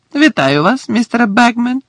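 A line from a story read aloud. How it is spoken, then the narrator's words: Cheerful. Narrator (Ukrainian): весело сказав Фред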